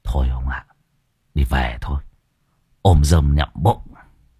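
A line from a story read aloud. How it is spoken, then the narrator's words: Whispering man. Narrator (Vietnamese): Ông Pha thì thầm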